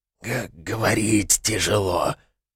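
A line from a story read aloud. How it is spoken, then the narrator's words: Creature's wheeze. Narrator (Russian): прохрипела тварь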